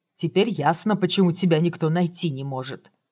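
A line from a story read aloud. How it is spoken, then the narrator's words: Plain. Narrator (Russian): сказал Тит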